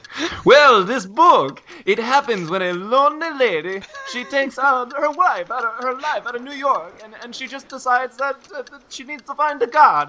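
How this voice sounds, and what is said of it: Put-on Italian accent. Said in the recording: “summarize this book in 45 seconds with an Italian accent ... my Italian accent will be at least as good as Elizabeth Gilbert's”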